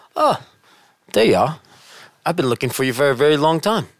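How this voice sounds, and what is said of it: Deliberately bad British accent. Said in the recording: “in my best horrible British accent”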